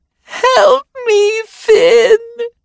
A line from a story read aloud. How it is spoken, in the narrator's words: shrieked a child who looked no older than 8